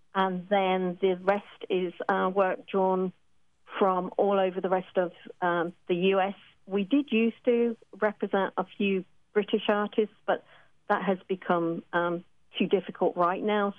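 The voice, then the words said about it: Strong British accent. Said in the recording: “folks listening can tell what the British connection is. Your accent is quite strong ... such distinct and strong accents”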